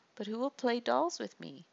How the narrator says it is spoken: Ema sobbed

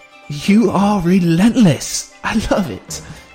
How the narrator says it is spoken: said, laughing

